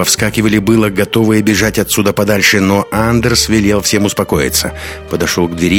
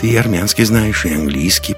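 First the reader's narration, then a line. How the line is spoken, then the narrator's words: Muttered. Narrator (Russian): пробормотал Лекс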